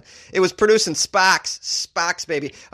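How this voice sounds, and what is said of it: Exaggerated Boston accent. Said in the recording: “Oh, I sounded so Boston there ... it's a great word for a Boston accent”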